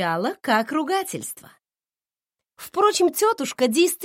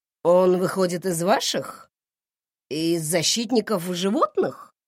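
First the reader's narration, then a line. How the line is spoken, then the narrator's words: Surprised grumble. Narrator (Russian): Она удивленно примолкла и проворчала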